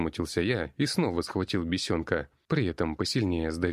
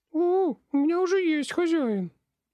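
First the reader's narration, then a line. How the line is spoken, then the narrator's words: Squeak. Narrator (Russian): пискнула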